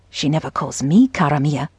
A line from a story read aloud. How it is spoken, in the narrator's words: whispered